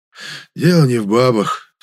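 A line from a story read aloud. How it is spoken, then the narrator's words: Sighing. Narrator (Russian): вздохнул Герасим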